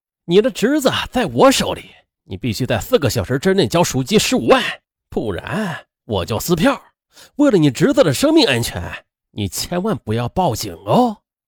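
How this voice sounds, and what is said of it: Menacing, vicious voice. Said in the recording (Chinese): “一个恶狠狠的声音说”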